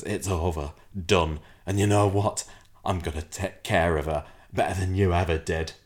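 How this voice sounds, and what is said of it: Imitates a TV character's voice. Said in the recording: “Was that your Vera Duckworth impression? ... That was my Gary Windass impression ... You sounded like um, what's her face, Randy old lavender lady ... you sounded like Phyllis Pierce then”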